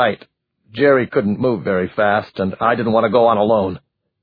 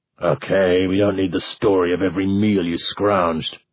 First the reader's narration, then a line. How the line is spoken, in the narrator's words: Christopher growled